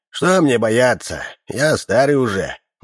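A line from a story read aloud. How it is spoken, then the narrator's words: Man's snort. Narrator (Russian): мужчина хмыкнул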